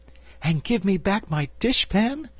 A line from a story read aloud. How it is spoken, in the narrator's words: added the Cookie Cook eagerly